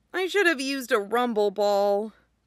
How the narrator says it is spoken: said sadly

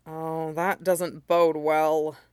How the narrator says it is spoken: Jiang Cheng muttered

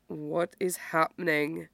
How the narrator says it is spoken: Derek asks in a low voice

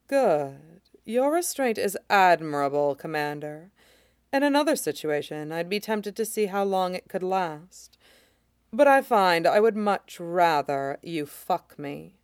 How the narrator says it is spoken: murmuring

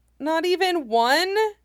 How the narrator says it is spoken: Chopper whines, clearly looking concerned

